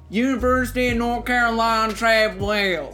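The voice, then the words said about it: Imitated southern accent. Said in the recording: “that was me mimicking you ... That was your voice ... I'll talk in a southern accent”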